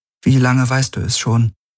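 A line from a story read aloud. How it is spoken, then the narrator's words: Strained calm question. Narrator (German): Sie wusste nicht, wie sie ihre Stimme weitgehend ruhig halten konnte, als sie fragte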